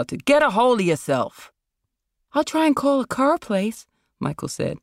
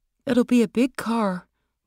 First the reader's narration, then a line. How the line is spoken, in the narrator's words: Michael murmured